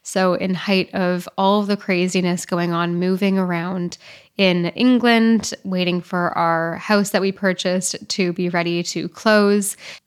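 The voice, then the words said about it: Voice sounds congested from cold. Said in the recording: “hear it from my voice, ... I am just coming off of a bad cold”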